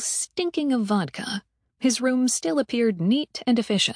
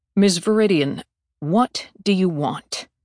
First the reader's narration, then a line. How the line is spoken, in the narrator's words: asked stiffly